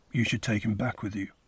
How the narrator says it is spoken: signed Greysting roughly

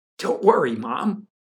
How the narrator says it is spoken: Larry said impatiently

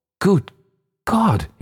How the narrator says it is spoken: he cried

